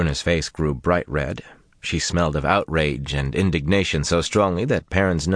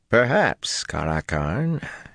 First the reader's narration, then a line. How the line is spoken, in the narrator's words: said dryly